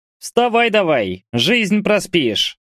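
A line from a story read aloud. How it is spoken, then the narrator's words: Annoyingly cheerful shout. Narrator (Russian): раздражающе бодрым голосом крикнул Бурый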